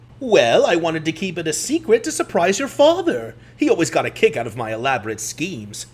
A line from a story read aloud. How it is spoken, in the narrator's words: giggled to herself